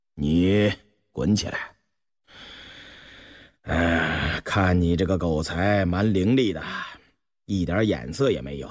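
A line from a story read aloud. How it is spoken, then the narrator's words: Laughing. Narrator (Chinese): 对秦狗儿笑道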